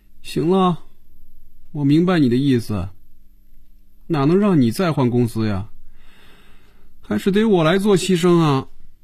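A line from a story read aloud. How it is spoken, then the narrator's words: Dejected. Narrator (Chinese): 菲比的眼神暗淡下来，脸上也没了笑容，垂着眼皮说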